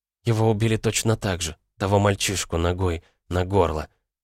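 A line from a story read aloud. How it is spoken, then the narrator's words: Whispered. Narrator (Russian): прошептала Ирен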